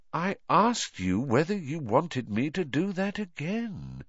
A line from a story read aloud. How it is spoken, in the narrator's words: said Voldemort softly